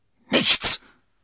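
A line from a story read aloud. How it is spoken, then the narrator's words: Angry shout. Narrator (German): rief D'Artagnan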